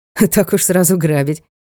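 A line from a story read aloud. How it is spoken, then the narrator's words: Short laugh. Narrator (Russian): хохотнул Ник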